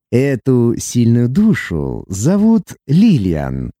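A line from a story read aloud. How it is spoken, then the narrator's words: Deep gloating purr. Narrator (Russian): утробно промурлыкала Тарут, наслаждаясь ее потрясением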